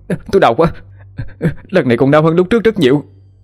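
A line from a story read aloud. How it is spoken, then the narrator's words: Shouting in pain. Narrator (Vietnamese): hét lên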